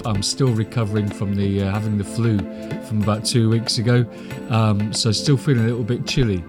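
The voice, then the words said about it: Croaky, congested voice. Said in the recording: “my voice sounds a bit croaky or bunged up”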